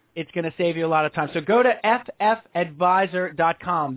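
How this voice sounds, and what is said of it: Booming radio announcer voice. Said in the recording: “that was a lot of announcer voice for me... That was a good deal of announcer voice for this guy.”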